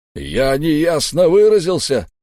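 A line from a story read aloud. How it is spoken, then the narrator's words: Roar. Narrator (Russian): взревел Дувал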